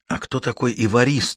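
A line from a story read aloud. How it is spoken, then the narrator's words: Whispered question. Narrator (Russian): шепотом спросила Ида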